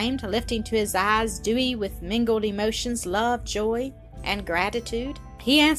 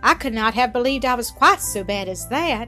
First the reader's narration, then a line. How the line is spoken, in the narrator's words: he sighed in mock despair